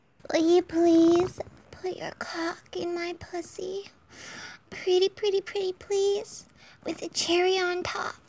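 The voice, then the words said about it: Childlike little girl voice. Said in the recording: “my little girl voice”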